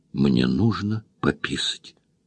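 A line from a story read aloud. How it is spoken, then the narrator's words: Distinct whisper. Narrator (Russian): услышала отчетливый шепот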